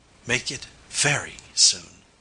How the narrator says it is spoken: she whispered, her lips close to my ear

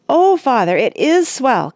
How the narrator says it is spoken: cried Randy

